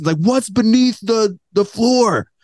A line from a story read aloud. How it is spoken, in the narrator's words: He screamed at Scarlett Johansson